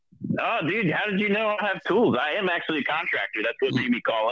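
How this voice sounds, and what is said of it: Noticeable regional accent. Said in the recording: “I know everything about you by that accent.”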